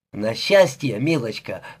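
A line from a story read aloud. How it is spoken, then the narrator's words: Chuckling. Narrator (Russian): хохотнул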